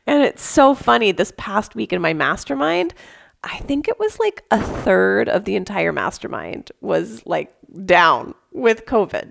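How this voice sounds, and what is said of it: Voice slightly off, unwell. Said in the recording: “my voice is a little bit off”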